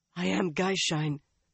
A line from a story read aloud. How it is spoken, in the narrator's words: the woman hoarsely told